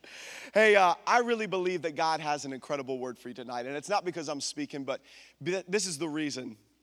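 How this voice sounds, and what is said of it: Hoarse, strained voice. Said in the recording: “I apparently just lost my voice”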